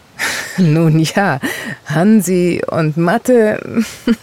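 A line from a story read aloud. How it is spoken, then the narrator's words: Woman replying with laughter. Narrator (German): entgegnete die Frau lachend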